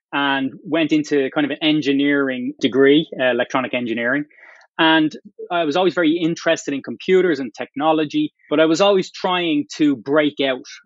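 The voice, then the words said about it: Irish Dublin accent. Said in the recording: “my accent, which I still have ... I'm from Ireland, from Dublin”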